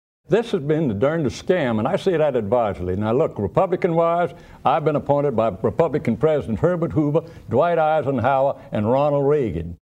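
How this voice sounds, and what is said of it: Charleston, South Carolina accent. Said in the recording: “speak authentically in a different accent ... I wanted to sound like, I opted for the late Senator Fritz Hollings, who hailed from Charleston, South Carolina.”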